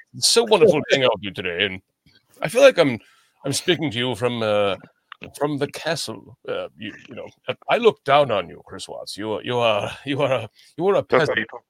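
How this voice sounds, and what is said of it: Put-on posh British accent. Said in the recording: “my normal British accent”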